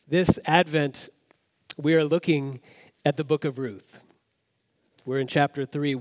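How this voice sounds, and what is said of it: Voice with a cold. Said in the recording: “I have a little bit of a cold”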